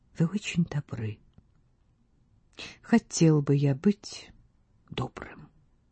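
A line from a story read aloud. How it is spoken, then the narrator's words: Whispered reply. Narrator (Russian): тоже шепотом ответил он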